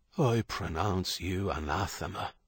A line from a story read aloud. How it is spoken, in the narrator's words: Father Michael said, his voice low